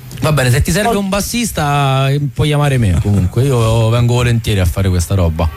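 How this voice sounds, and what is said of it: Roman Italian accent. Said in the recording (Italian): “accento romano”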